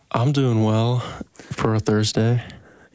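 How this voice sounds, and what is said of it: Grumpy-sounding voice. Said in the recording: “You sound like a little bit grumpy.”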